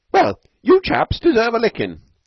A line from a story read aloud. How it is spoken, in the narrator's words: cried one Norton incautiously